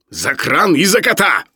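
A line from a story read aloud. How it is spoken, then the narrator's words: Sudden bark, irony dropped. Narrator (Russian): рявкнул вдруг Филипп Филиппович, выходя из состояния иронического спокойствия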